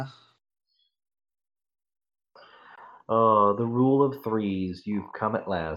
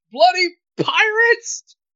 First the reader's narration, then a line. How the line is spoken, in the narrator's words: Rigetti just shouts